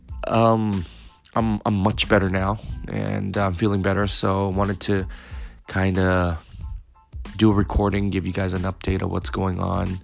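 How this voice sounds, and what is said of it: Slightly raspy voice. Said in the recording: “I've been fighting a cold ... completely lost my voice ... Still a bit raspy. I'm sure you guys could hear it”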